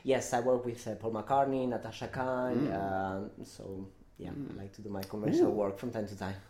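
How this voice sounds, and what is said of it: English accent, sounds like Brighton. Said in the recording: “from my accent, you might think I'm from Brighton.”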